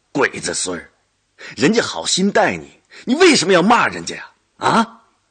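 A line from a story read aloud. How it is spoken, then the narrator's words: Angry yelling at son. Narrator (Chinese): 孙玉厚对着低头吃饭的儿子吼骂道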